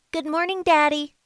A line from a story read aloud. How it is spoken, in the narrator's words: he said in his innocent and childlike voice